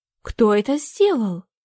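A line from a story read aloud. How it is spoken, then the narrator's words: Exclaimed. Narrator (Russian): воскликнула Агнешка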